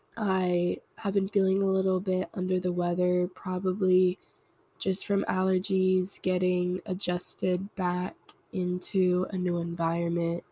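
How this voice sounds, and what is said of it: Raspy, congested voice. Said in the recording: “my voice is a little raspy and I am a little congested”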